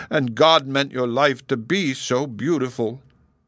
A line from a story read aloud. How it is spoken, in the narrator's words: sobbed